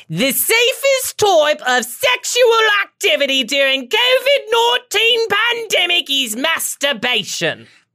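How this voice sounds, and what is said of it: Exaggerated put-on British accent. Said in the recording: “So here's my British accent. It's very much Dick Van Dyke and Mary Poppins ... She's just loud.”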